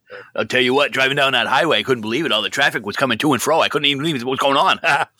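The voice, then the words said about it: Put-on Maine accent, fast. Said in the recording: “it's accurate as far as your Mainer dialect ... people from Maine don't talk that fast”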